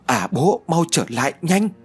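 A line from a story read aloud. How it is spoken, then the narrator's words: Shouting. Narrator (Vietnamese): Đào Như hét lên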